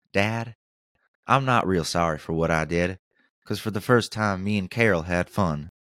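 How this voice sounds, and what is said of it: Forrest Gump accent. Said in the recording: “I gave him a Forrest Gump accent”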